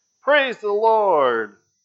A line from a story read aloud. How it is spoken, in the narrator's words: the lady shouted